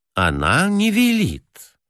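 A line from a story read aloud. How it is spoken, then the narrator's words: Soft. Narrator (Russian): мягко сказал черноволосый директор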